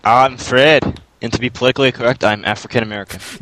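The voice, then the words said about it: Character voice with Scottish accent. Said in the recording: “He's black with a Scottish accent.”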